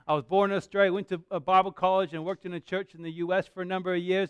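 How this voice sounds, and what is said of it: Mixed Australian and American accent. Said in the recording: “I actually am Australian. I just don't, I'm just confused in my accent.”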